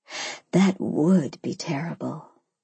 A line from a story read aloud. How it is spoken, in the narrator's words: I whispered